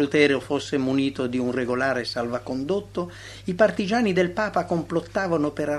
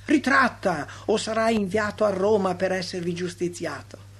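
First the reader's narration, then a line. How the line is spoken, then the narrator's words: Proud, arrogant shouting. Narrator (Italian): Il rappresentante del Papa, orgoglioso, ambizioso, intrattabile gridava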